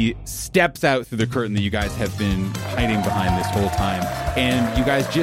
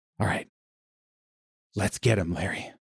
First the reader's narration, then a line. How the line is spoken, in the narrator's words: whisper under his breath